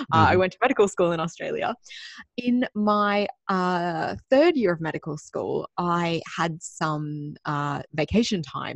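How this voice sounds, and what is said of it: Australian accent. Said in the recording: “Clearly from my accent, I'm Australian.”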